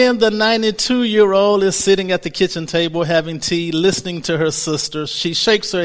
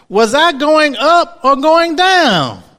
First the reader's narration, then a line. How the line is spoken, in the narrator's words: She shouts out